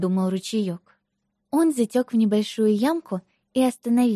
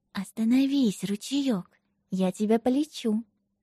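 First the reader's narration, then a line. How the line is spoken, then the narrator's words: Whispering. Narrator (Russian): лесная малина прошептала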